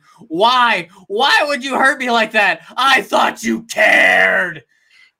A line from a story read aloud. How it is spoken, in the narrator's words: screaming